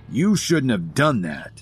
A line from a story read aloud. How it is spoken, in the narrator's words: Ambrose snarled